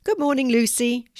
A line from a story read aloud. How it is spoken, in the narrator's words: she said cheerfully